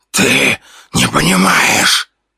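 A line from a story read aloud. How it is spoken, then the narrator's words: Fading whisper. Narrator (Russian): прошептал он, исчезая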